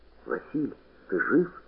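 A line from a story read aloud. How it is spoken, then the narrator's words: Whisper. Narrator (Russian): шепнул куница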